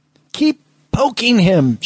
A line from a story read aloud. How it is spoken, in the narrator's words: Schmidt yelled